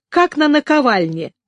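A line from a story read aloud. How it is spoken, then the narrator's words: Laughing. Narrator (Russian): снова засмеялась Елена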